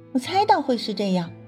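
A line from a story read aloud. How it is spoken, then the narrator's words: Sneering laugh. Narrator (Chinese): 祝海棠嗤笑一声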